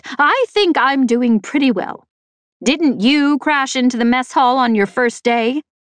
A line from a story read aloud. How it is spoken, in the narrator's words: he snapped